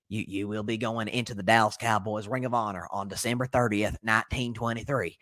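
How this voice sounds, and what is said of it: Jerry Jones impression. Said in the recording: “I'll do my best Jerry impression”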